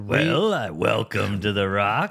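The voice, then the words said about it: Imitates another person's voice. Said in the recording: “That's my Sean Connery impression. ... It's a good impression.”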